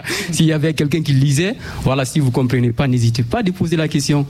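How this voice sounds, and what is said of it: Somewhat unusual accent. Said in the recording (French): “j'ai un accent un peu bizarre”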